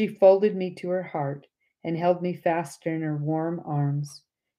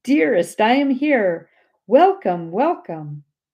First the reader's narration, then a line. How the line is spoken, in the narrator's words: cried